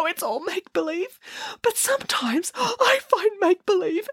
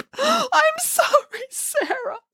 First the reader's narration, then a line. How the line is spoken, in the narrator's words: sobbed Boris